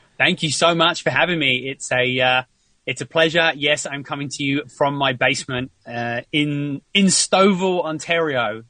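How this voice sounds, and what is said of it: British accent, South London. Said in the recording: “it doesn't really sound like I'm from Stouffville ... originally I am from the UK. I grew up in just outside South London”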